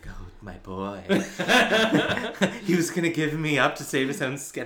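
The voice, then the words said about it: Airy imitated female character voice. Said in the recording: “I wish I could do a better Darla voice, because it's so specific that, like, the airy kind of, like,”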